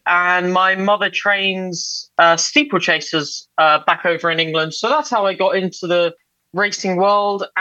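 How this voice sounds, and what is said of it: English accent. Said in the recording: “As you can probably tell from my accent, I am English.”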